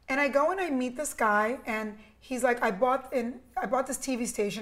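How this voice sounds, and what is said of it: New York accent. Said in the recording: “I have this New York accent”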